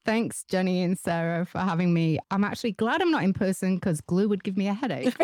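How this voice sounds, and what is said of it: Noticeable, pleasant accent. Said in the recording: “your accent already. I'm like, oh, I'll listen to you all day”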